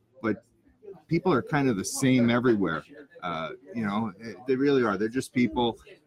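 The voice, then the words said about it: New York accent. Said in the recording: “I got the New York accent”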